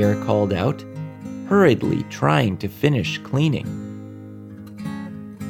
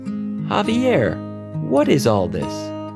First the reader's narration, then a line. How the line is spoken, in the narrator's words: Javier's mom asked him in a curious but kind voice